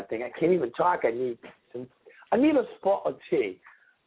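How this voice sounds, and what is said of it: Poor put-on British accent. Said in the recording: “I got a horrible British accent.”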